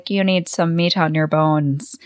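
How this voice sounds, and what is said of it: Thick put-on Irish accent. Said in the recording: “sporting a thick Irish accent”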